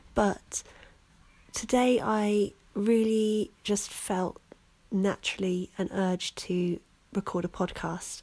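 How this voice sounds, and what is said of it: Slightly croaky, hoarse voice. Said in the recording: “lose my voice, and my voice is still a little bit croaky”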